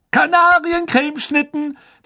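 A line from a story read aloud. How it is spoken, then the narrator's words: Loud announcement to crowd. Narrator (German): verkündete Fred laut der aufgeregten Schülerschar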